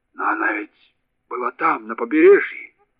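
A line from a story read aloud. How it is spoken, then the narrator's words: Stammering, forced out. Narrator (Russian): запинаясь, выдавил из себя шофер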